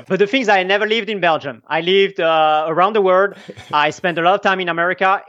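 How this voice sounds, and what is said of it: Mixed foreign accent, hard to place. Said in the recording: “I have a weird accent. ... a mix of Belgium, American, Australian, a mix of everything”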